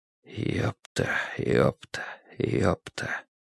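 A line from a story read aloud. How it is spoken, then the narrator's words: Rhythmic muttering. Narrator (Russian): бормотал Страйк в такт своим шагам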